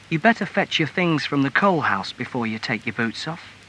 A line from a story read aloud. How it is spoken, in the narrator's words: she said quietly